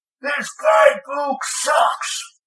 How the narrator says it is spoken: he roared

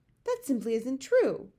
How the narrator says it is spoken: Sophie cried angrily

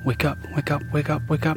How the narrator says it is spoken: whispering to myself

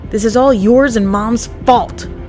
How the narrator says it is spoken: he spat

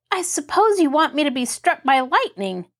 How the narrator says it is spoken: Mary retorted crossly

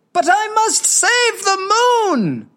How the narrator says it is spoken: cried Hoja

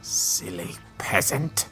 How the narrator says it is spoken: she said, her voice turning cold

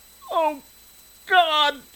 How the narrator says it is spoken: She wailed

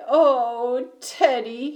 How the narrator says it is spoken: he whimpered

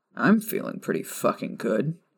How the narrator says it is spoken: Sirius muttered

